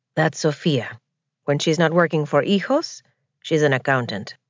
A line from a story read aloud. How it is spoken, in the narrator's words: Franco murmured